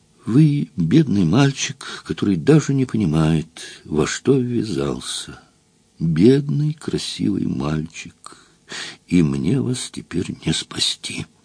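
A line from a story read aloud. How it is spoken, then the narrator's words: Sad voice. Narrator (Russian): Амалия Казимировна грустно молвила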